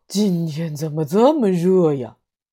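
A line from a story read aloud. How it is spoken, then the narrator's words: Frog's pained sigh. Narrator (Chinese): 青蛙痛苦地叹了一口气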